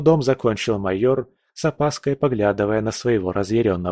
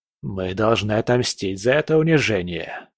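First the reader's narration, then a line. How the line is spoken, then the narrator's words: Hissing through teeth. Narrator (Russian): прошипел он сквозь зубы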